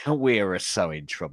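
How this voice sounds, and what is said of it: Poor put-on Italian accent. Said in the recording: “That is not an Italian accent ... Talk like Mario or Luigi ... their poor accent ... Very poor.”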